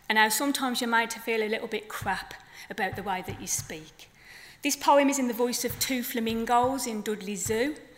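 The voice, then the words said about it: Black Country accent. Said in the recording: “This is a Black Country accent, by the way”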